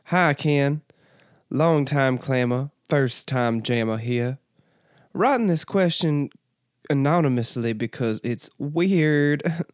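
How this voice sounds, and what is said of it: Reads aloud in a put-on accent. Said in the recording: “Why am I giving you an accent? ... Do you want your accent back?”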